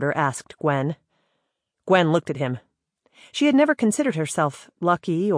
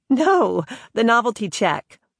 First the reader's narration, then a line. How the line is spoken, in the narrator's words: The woman laughed and said